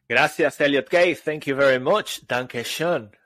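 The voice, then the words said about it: Strong non-native English accent. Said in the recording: “you clearly have a stronger accent than me”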